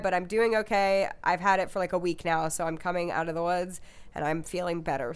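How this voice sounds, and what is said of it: Slightly cracky, sick voice. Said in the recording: “my voice sounds a little cracky. And if you hear me cough”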